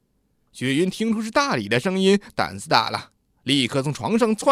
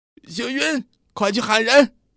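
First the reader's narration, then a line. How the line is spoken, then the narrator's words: Shouting from under bed. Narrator (Chinese): 大理在床底下喊他老婆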